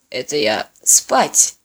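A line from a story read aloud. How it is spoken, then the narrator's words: Muttered. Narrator (Russian): Осолев, он буркнув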